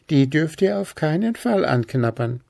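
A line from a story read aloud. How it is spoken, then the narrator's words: Giggling. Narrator (German): kicherte Hüpf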